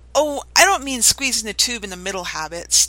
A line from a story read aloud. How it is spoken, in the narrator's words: Tamara laughed